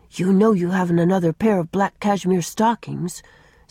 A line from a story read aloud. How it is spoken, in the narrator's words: said Una